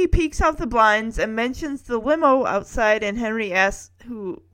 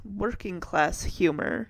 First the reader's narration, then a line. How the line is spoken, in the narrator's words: muttering